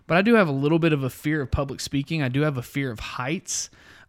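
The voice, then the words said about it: Rough, deeper than normal radio voice. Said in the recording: “kicking it into radio voice, kind of like I'm doing right now... my voice is killing me today. It's just a rough talking day for me, my allergies. So I sound like I'm a little bit deeper than normal and sounding a little sexier.”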